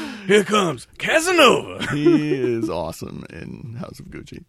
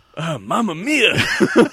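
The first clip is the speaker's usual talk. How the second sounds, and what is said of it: Put-on Italian accent. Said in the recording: “Now do an Italian accent”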